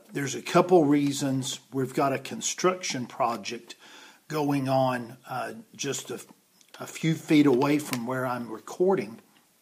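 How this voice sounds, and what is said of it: Raspy, hoarse voice. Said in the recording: “I apologize for my voice... have had this raspiness all day long... there's a good bit of dust out there”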